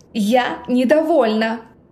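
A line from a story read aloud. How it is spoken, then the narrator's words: Deafening bark. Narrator (Russian): Рявкнула так, что у самой голова разболелась от дикого шума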